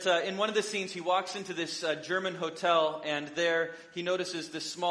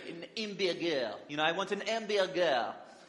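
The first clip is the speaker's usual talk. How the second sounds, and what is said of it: Deliberately bad fake French accent. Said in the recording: “do a bad impersonation of someone doing a bad impersonation of a French accent”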